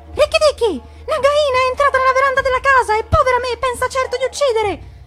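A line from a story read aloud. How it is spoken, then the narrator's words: Cry. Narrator (Italian): grido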